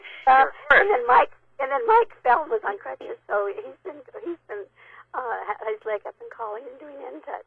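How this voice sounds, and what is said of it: Hoarse, strained voice. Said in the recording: “I've got laryngitis.”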